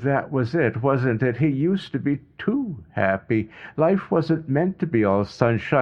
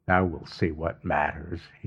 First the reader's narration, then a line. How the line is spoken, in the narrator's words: he muttered